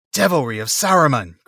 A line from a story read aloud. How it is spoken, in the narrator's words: cried Aragorn